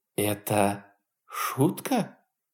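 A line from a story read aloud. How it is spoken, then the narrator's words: Breathless woman. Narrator (Russian): выдохнула она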